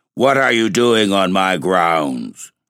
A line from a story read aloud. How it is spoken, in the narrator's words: said the black man with a hoarse, growling voice